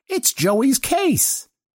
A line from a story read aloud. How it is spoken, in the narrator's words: he announced in a jolly tone, just as childishly presumptive as before